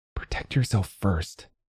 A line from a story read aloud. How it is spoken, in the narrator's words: Arpil whispered